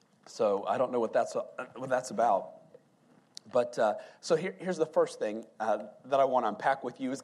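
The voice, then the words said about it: Voice suddenly faltering, hoarse. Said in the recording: “all of a sudden, I've lost my voice.”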